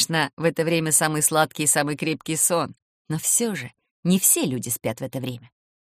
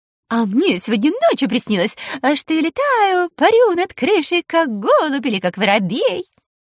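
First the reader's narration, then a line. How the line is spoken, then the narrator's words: Joyful chatter. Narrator (Russian): протрещала радостно Кикимора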